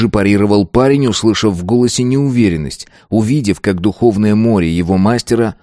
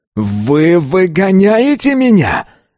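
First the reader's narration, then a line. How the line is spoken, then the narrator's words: Yelled. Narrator (Russian): заорал он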